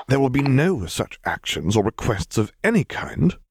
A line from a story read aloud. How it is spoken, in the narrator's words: he hissed at both troopers